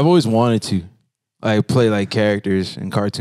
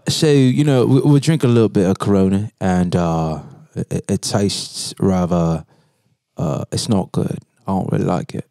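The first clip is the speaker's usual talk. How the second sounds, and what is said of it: Poor put-on British accent. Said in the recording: “like a British accent, but it's terrible. Mine's is terrible.”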